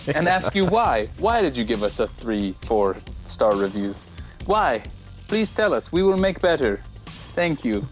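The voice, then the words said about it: Bad put-on foreign accent. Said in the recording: “It's another bad accent for you.”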